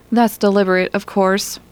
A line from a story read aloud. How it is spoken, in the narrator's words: said Tony